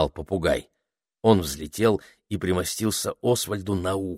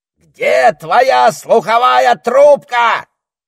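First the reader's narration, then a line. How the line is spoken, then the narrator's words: Shouted. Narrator (Russian): прокричал он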